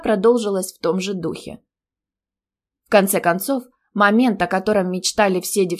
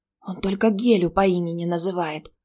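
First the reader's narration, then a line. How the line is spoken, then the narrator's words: Classmates whispering. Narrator (Russian): послышались перешептывания одногруппниц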